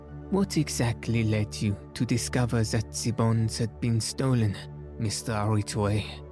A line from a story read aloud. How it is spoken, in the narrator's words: laughed rather bitterly